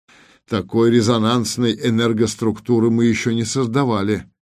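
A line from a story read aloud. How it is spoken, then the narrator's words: Grim reply. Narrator (Russian): мрачно отозвался начальник особого отдела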